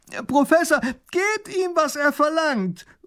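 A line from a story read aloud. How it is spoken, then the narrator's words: Young boy calling out. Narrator (German): ruft der kleine Großherzog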